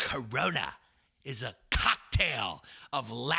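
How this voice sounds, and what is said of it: Usual voice. Nothing is said of it.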